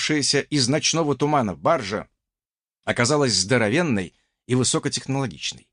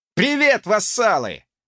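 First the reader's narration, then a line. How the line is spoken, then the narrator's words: Cheerful distant yell, jerboa. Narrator (Russian): жизнерадостно заорал с причала тушканчок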